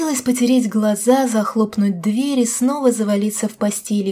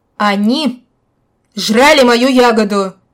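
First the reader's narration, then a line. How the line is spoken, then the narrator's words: Shouting again. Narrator (Russian): вновь закричал он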